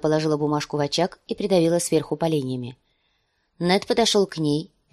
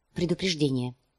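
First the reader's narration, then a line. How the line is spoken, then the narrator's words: Quiet answer. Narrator (Russian): негромко ответила она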